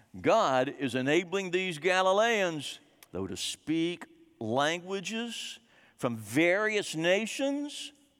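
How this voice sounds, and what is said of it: Tennessee/Texas twang. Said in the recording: “I don't sound French because I'm not from there... I say it with a Tennessee/Texas twang”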